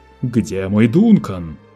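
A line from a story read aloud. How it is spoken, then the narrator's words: Roared. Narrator (Russian): проревел Лето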